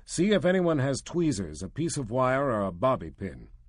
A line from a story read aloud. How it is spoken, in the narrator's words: growled